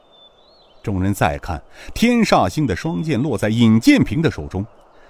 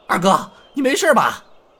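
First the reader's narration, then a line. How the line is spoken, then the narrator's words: Calling out. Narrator (Chinese): 天孤星高怀全喊了一声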